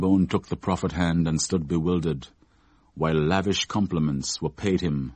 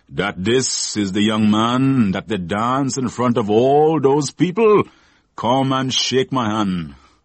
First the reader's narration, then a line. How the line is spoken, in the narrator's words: declared Mother Sally in a booming voice